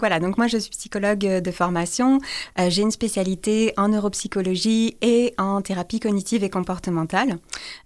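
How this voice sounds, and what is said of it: French accent from France. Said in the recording (French): “je viens de France, ça, je ne peux pas trop le cacher, on va dire, mon accent me trahit”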